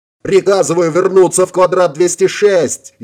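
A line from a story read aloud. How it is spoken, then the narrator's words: Frantic yelling officer. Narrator (Russian): истошно заорал майор Волович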